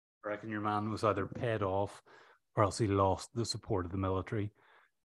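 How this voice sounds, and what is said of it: Irish accent. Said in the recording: “a little bit of an Irish accent on the pod”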